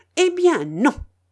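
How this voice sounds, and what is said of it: Fierce, defiant delivery. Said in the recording (French): “reprit-elle d'un accent farouche.”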